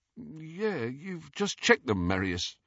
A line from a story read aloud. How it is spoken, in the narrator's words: his companion, who said in a slightly dazed voice